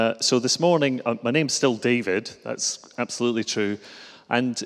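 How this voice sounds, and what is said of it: Usual voice. Nothing is said of it.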